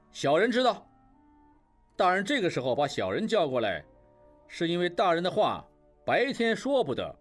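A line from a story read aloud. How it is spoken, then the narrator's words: Loud answer. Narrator (Chinese): 应震高声回答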